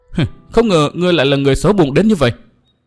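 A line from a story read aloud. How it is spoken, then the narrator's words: Furious scolding. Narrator (Vietnamese): Phùng Nhi tức giận vô cùng quát mắng tiếp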